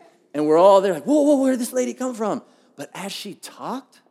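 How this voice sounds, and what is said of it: Usual voice. Nothing is said of it.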